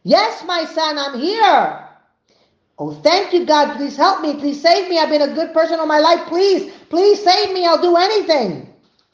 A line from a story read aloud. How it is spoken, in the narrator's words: a booming voice from heaven saying